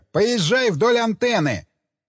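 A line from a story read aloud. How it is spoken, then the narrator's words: Sharp shout at dog. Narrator (Russian): Джек Строу прикрикнул на вожака упряжки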